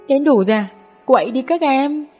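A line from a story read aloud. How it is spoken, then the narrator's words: Shouting. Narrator (Vietnamese): Sami la lên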